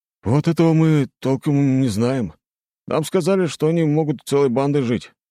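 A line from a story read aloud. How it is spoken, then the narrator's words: Sighed. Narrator (Russian): вздохнул Семен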